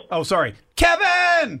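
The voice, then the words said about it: Yelling a name loudly. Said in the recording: “Why are you yelling?”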